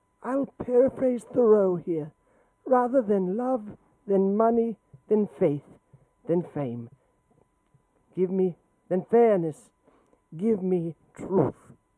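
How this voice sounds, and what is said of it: Imitates another person's voice. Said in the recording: “that was the worst Jane Goodall impression”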